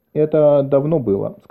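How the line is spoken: Plain. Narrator (Russian): сказала она

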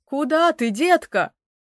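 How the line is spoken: Kind exclamation. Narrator (Russian): воскликнул добрый Уилл

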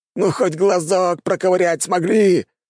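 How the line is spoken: Wailed. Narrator (Russian): взвыл Гоминик

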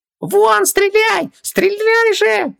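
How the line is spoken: Screaming. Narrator (Russian): завопил Хубаксис

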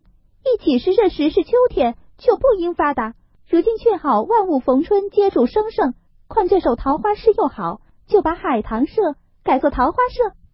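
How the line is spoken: Laughing. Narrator (Chinese): 湘云笑道

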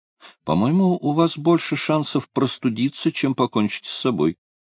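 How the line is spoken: Quiet reply. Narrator (Russian): тихо ответил Карла

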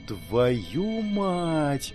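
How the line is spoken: Whisper. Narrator (Russian): прошептала

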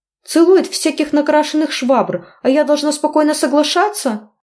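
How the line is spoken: Indignant shrieking. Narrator (Russian): Визжала от несправедливости

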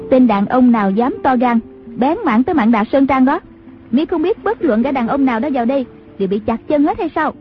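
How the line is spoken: Woman shouting from afar. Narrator (Vietnamese): có tiếng đàn bà quát vọng ra

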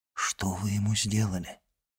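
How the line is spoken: Whispered question. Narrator (Russian): шепотом спросил он

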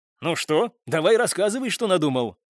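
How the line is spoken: Cheerful speech. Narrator (Russian): весело заговорил Михаил

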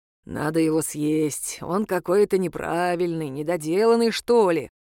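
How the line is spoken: Muttered. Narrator (Russian): буркнул Исмаил

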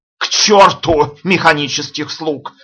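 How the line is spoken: Roaring. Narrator (Russian): взревел Гане

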